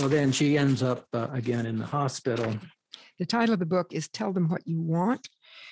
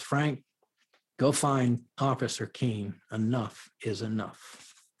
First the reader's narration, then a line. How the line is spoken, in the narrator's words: growls